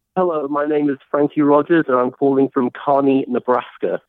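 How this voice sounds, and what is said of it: British accent. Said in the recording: “You sound British”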